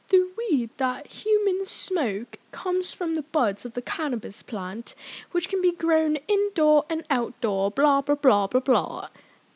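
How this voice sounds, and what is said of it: Put-on British accent. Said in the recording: “I'm, like, really good at a British accent, people have told me”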